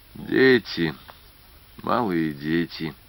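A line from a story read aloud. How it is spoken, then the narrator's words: Quiet. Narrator (Russian): тихо сказал Вакульский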